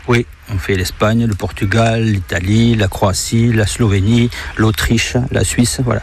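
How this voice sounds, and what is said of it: Singsong southern French accent. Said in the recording (French): “ce petit accent qui fait tellement plaisir à entendre... C'est un accent qui chante”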